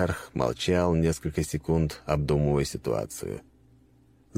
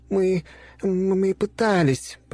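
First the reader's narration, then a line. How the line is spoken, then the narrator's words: Timid babbling. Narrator (Russian): пролепетала Ангелина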